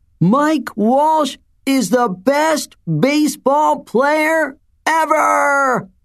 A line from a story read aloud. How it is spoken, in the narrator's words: yelled as loudly as he could